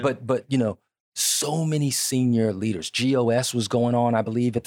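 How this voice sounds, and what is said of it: Usual voice. Nothing is said of it.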